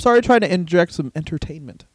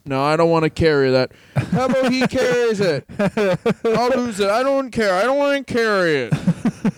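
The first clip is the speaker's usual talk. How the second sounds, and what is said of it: Imitates another person's voice, well paced. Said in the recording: “your Barry Windham impression is it's far too well paced”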